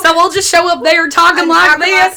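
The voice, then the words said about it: Put-on Southern accent. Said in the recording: “we're just going to do my southern accent ... those nice southern girls ... From Appalachia.”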